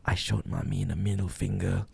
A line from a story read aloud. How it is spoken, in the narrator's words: whispered in my ear